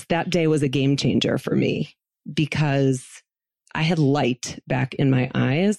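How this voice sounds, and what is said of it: Emotional, choked-up voice. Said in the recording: “I get a little emotional when I think about this”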